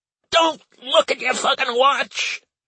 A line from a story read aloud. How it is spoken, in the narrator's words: Grant shouted, saliva flying across the room